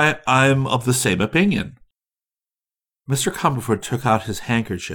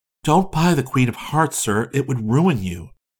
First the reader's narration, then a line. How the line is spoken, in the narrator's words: she repeated earnestly